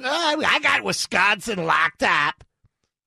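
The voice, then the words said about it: Imitates another person's voice. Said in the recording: “my new Hillary impression... Does that sound just like her?”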